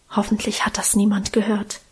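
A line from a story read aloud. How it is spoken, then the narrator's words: Timid whisper. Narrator (German): Karl scheu flüsterte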